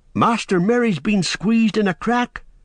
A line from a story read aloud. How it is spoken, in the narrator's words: cried Sam